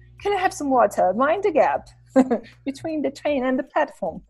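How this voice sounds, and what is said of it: Put-on English accent. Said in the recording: “English accent, you know, like from England”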